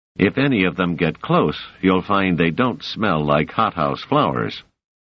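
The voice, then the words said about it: Low voice. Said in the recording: “in a low voice”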